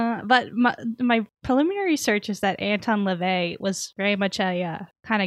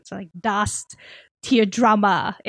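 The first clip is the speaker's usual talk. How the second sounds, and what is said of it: Put-on German accent. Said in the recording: “say that more in a German accent ... that was very good”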